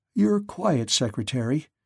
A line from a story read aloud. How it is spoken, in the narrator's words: he said nervously